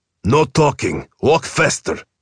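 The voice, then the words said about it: Snapping man, heavy accent. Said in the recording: “A man snaps at her in a heavy accent.”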